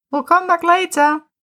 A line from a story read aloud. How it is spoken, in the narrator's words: Tim called out from behind the door